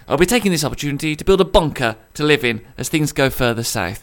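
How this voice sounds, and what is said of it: Strong Birmingham (Brummie) accent. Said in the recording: “my borderline unlistenable Brummy accent”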